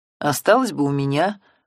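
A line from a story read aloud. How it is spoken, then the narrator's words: Grumbling again. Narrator (Russian): в который раз проворчал Семен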